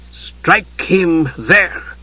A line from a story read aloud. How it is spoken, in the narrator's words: came a hissing voice, the voice of the high priestess